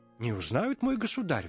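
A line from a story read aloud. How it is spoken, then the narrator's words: Exclaiming. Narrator (Russian): воскликнул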